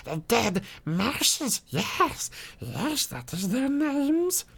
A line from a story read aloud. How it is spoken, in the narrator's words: cackled